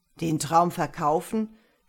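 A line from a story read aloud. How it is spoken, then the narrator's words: Merchant's mocking question. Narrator (German): fragte der Kaufmann spöttisch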